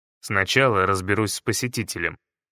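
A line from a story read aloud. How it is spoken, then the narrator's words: Displeased grumbling. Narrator (Russian): проворчал я, недовольный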